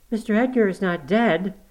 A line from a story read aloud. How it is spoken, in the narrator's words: gasped